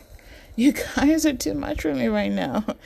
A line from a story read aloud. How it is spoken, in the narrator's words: Leonard laughs